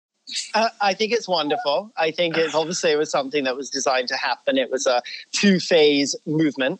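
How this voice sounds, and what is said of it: British English accent. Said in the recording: “obviously everyone can hear your accent. I believe you're Scottish ... You have a very fabulous English accent.”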